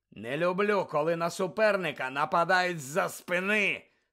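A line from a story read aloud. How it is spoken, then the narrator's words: Growl. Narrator (Ukrainian): загарчав Муді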